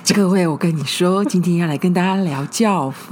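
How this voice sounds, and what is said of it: Quiet, hushed voice. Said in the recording (Chinese): “为什么要这么小声...偷偷聊”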